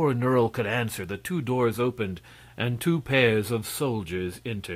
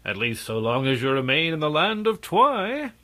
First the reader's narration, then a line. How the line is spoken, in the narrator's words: laughed the prince